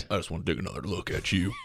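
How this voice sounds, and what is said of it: Jackson Maine character voice. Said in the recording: “you going to do the voice? ... I got to get my Jackson Maine voice going.”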